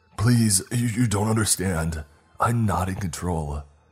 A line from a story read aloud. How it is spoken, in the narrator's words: he screamed